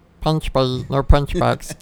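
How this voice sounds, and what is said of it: Imitates Stitch cartoon character voice. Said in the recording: “It's a Stitch from Lilo and Stitch.”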